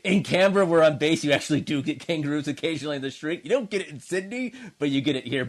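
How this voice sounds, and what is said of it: American accent. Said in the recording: “you don't have an Australian accent at all... you can't shake the American accent”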